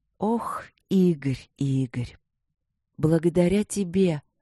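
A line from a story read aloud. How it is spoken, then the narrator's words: Quiet intimate queen. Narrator (Russian): королева говорила так же тихо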